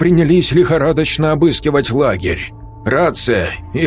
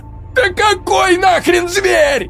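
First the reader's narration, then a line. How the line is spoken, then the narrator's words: Shrieked. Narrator (Russian): взвизгнул Игорь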